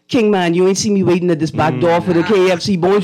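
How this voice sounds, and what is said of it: Potcake dialect character voice. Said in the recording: “Can you give me a sentence in that potcake dialect, please? I want to know what that sounds like.”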